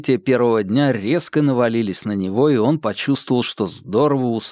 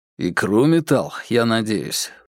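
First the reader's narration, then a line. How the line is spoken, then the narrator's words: Muttering. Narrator (Russian): пробормотал Бабкин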